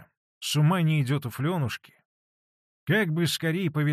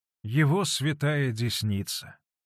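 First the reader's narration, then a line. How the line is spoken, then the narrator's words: Sighing. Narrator (Russian): вздохнула Манефа, благостно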